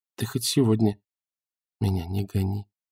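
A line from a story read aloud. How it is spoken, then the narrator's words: Timid, smiling. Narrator (Russian): робко улыбнулась Наташа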